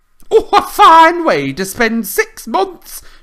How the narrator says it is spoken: she shrieked

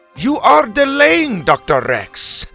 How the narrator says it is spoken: Helga Bronson shouted from the back

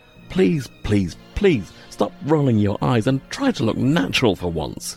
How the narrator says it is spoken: he spluttered

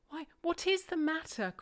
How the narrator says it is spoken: cried I

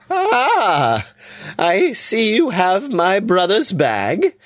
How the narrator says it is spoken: she laughs

